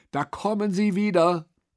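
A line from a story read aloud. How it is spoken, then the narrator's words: Boy calling out. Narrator (German): rief ein Junge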